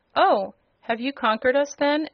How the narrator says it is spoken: asked the captain of the guards in a surprised tone

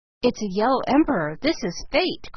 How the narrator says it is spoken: cried Philip

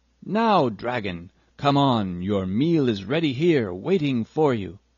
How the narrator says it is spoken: called out loudly

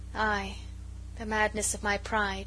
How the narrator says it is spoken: she said sadly

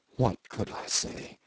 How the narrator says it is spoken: he asked in the same low tone

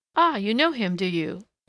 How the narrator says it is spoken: laughed the village innkeeper

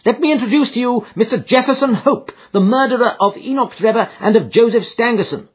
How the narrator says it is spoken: cried with flashing eyes

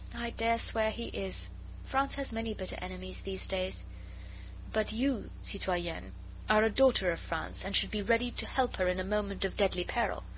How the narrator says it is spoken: said with a quaint little sigh

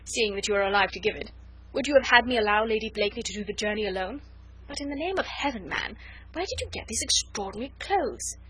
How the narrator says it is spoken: said Sir Andrew with a merry laugh

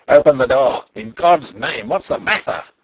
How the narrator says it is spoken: cried a voice, the voice of Black Michael himself

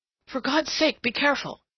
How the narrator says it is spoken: he gasped

